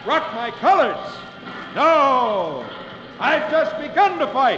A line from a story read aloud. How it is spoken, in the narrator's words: John Paul Jones shouts back